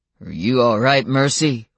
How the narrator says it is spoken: Warren asked, his voice rumbling with the first hint of challenge

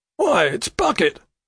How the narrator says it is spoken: cries Mr

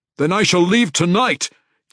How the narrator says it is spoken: he roared at the stunned assembly

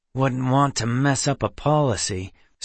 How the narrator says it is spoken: Seth grumbled

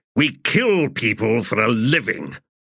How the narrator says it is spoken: Kindly growled

